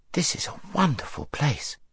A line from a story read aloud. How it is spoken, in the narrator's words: said Shasta in an awed voice